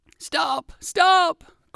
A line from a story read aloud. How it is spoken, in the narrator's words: cried one fox